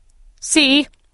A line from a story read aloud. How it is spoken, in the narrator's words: he cried to the people